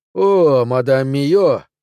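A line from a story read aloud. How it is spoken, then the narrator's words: Exclamation. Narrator (Russian): воскликнул Рашфор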